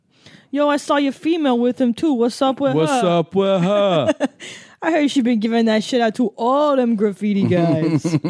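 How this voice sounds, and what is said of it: East Coast American accent. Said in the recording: “That accent is one of my favorites, I have to say. That East Coast.”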